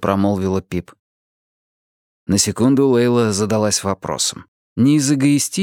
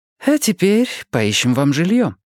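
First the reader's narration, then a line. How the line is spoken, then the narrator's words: Cheerful suggestion. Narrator (Russian): бодро предложила Лейла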